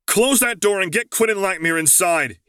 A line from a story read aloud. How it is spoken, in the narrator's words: he yelled